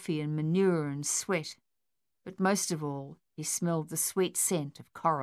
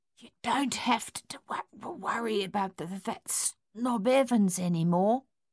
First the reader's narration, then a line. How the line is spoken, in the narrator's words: he whispered